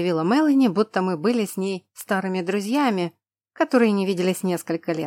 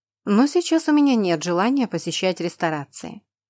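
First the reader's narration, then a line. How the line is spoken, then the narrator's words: Dry reply. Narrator (Russian): сухо отозвалась я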